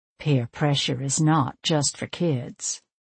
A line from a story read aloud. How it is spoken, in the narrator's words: under my breath, I added